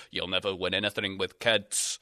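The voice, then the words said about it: Poor imitation of another person's accent. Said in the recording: “That was a bad Alan Hansen accent.”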